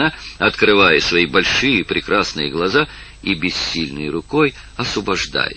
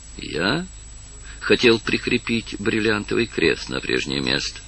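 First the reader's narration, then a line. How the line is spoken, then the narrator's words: Quiet reply. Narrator (Russian): ответил он тихо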